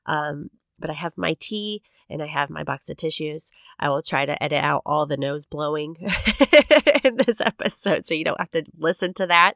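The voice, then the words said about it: Congested, stuffy cold voice. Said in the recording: “a severe head cold, which I'm still dealing with. You can probably hear it in my voice”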